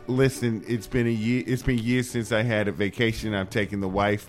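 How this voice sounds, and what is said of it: Put-on New Jersey accent. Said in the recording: “West Coast Jersey”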